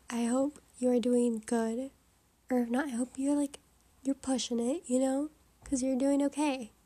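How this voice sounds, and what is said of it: Slightly sick, hushed whispering voice. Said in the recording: “of whispering now ... I'm still a little bit sick, I'm getting over it, but you can hear it in my voice ... I'm gonna be a little quiet”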